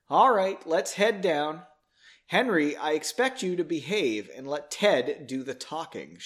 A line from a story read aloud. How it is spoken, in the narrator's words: breathed deeply, saying